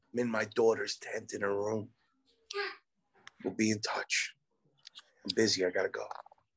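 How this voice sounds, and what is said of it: Whispering. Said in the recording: “This guy's fucking whispering.”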